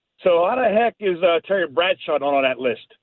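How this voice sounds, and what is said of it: Pittsburgh Yinzer accent. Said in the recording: “I heard your Yinzer accent when you said that, by the way. ... It came out a little bit there ... Yeah, you Pittsburgher.”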